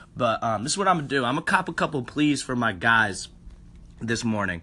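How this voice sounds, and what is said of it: Rough, damaged voice. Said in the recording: “I'm murked. My voice is fucked up.”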